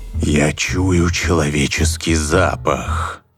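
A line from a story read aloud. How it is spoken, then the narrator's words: Ogre's growl. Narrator (Russian): прорычал людоед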